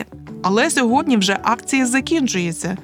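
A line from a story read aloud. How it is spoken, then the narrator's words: Plain. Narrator (Ukrainian): відповів Михасик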